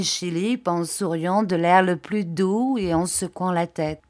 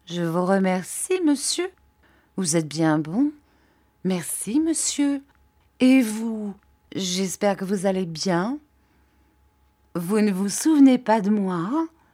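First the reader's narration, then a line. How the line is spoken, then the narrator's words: Slow, troubled reply. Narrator (French): Il parut fort troublé de cette interpellation inattendue de la part d'un étranger et répondit lentement, selon son habitude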